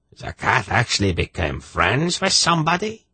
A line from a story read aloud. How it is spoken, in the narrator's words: King Drosta of Garagnadrak demanded incredulously in his shrill voice